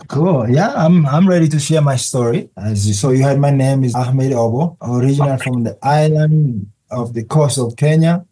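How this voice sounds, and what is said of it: Strong foreign accent. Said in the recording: “there's a strong accent, so you're not originally from the United States”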